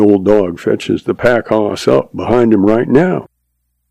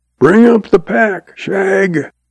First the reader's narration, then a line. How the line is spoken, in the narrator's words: when Red gets too far behind, he hollers